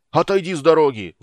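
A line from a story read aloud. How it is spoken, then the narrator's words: Roared. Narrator (Russian): взревел Флинт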